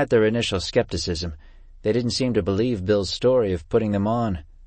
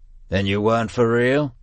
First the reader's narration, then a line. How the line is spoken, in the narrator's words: forced a laugh